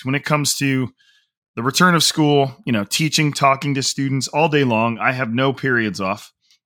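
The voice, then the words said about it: Strained, worn-out voice. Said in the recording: “apologize for my voice. Again, my voice has been on just an absolute, has been taking an absolute beating over the past few weeks”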